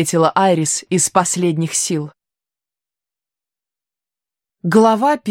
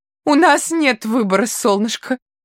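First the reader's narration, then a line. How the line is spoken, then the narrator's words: Sobbing. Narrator (Russian): всхлипывала Айрис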